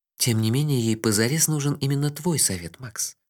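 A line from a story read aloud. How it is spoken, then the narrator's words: Soft. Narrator (Russian): мягко сказала Техи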